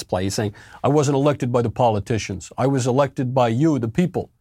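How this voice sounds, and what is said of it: Generic New York accent impression. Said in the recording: “it's not even like I'm just doing a generic New York. The actual Cuomo accent is kind of like more like Al Pacino in The Godfather 1. Sound a little bit higher, a little softer”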